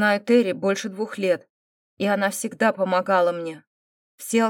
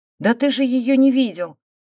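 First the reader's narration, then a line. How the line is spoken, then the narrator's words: Exclamation. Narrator (Russian): воскликнула Дина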